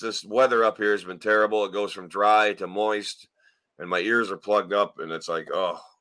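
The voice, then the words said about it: Slightly hoarse, froggy voice. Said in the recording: “pardon my voice. ... so I might be a little froggy”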